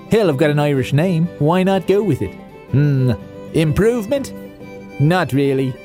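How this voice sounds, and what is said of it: Put-on Irish accent. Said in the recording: “slip into my good friend, the old Irish accent”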